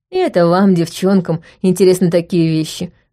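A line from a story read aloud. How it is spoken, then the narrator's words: Snorting. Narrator (Russian): хмыкнул Роб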